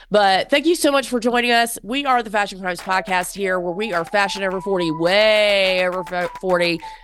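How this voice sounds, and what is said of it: Congested, stuffy-nosed voice. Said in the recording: “I have a cold. Sorry, my nose is stuffed up.”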